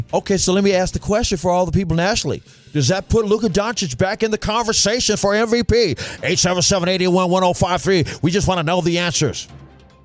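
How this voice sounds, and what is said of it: Imitates a national sports broadcaster. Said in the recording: “Who's that impression of? ... National guy.”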